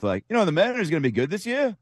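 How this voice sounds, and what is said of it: Ryan Rowland-Smith impression, rising questioning intonation. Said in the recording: “he also has kind of a little question mark at the end... kind of like the Ryan Roland Smith”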